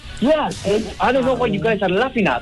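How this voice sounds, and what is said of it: Exaggerated, cartoonish fake foreign accent. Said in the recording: “it doesn't sound right... It's way too animated, way too, like, a novel and cartoon sounding”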